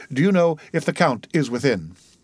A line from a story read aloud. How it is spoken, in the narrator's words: he said hastily